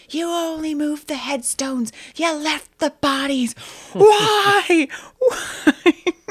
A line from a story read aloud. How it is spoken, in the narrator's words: He's screaming at the top of his lungs